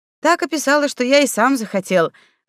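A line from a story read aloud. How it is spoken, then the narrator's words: Snort. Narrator (Russian): хмыкнул Савелий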